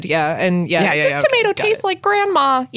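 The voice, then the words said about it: Good impression of Ralph Wiggum. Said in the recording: “That was a very good impression.”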